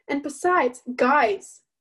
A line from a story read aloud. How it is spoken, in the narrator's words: I snapped